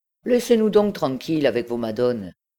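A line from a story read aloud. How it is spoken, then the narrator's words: Laughing. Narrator (French): dit-il en riant au Beauquerois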